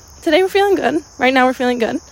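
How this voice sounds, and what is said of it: Hoarse, fading voice. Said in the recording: “sorry, I'm losing my voice”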